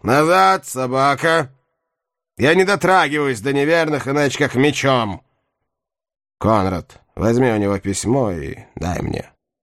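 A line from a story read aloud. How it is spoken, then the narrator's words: Menacing shout. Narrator (Russian): Бомонуар грозно крикнул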